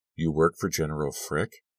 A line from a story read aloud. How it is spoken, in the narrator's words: she purred